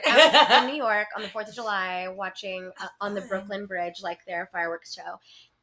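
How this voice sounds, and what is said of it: Country West Texas accent. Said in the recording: “I hear a hint of an accent ... I had like a very much country accent”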